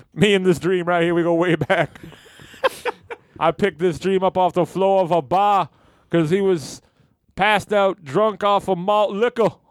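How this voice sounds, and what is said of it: Martin Luther King impression. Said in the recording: “doing a Martin Luther King impression”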